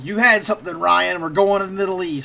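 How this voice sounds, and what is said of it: Poor imitation of a character's voice. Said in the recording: “That's a terrible impression of Bunk”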